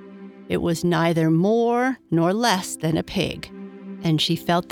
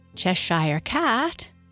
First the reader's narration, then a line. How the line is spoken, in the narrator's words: began rather timidly, as she did not at all know whether it would like the name